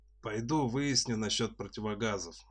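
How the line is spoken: Gloomy. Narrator (Russian): мрачно сказал дядя Саша

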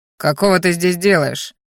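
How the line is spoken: Fighter's growl. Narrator (Russian): рыкнул боевик

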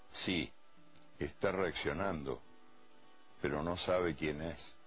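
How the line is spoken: Doctor's low voice. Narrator (Spanish): Y en voz baja, un médico le dijo al entrenador

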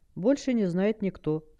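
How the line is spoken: Calm. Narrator (Russian): спокойно ответил Ив

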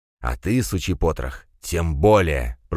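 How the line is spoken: Hissing in the face. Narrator (Russian): прошипел Пегасов шаману в лицо

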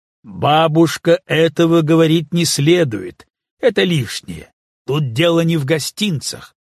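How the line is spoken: Loud interruption. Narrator (Russian): Я громко прервал

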